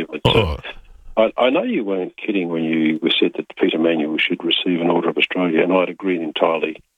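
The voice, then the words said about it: Hoarse voice from a cold. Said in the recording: “You'll have to excuse my throat. I've got a bit of a cold”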